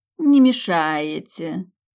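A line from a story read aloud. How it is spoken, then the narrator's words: Sarcastic drawl. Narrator (Russian): язвительно протянула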